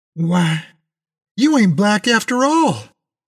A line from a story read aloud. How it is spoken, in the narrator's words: almost shouted